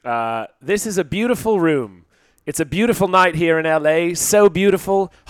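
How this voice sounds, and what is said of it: Put-on British accent. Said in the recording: “can you do it in a British accent at least?”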